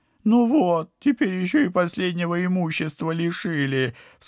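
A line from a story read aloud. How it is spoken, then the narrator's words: Sobbing, pitiful whine. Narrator (Russian): всхлипнул падла, привычно пытаясь давить на жалость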